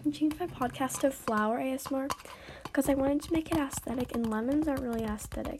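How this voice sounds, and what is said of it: Raspy voice. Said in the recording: “sorry my voice. It sounds, like, really raspy ... I sound kind of like a dying horse”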